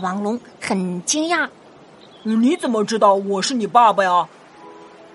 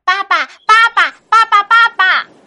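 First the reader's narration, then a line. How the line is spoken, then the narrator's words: Fearless repeated cries, child. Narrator (Chinese): 小甲龙并不害怕 嘴里不停的喊着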